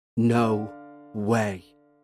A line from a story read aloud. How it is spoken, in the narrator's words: muttered